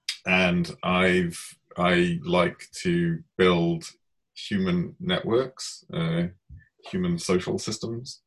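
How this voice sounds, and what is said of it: British accent. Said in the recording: “I am obviously British, as you can probably tell by my accent.”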